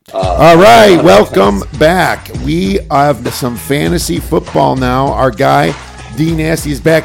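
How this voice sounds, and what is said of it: Hoarse, fading voice. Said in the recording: “Finally losing my voice,... Maybe a little too much Vegas this weekend.”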